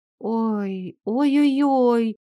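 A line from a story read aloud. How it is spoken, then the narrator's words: Pitiful whimper. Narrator (Russian): Я жалобно скуксилась, осознав, что так просто покинуть кладбище нам не удастся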